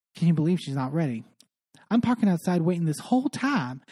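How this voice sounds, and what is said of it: Put-on Southern US accent. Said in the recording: “I am mixing up my accents. I am so sorry. Dorit is not suddenly Southern.”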